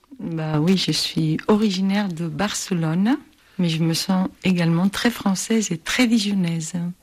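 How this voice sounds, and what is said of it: Foreign accent in French. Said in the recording (French): “À votre accent, je crois que vous venez d'une autre contrée.”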